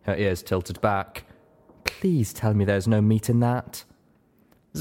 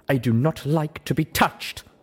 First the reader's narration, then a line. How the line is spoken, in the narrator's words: The zebra spat